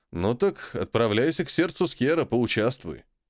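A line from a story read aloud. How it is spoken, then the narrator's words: Snorting. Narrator (Russian): Беловолосый хмыкнул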